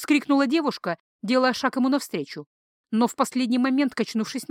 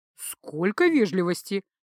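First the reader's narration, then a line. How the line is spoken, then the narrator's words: Inner snort, unspoken. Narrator (Russian): мысленно хмыкнул Джейка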